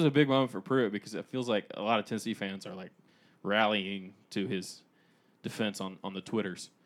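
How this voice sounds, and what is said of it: Usual voice. Nothing is said of it.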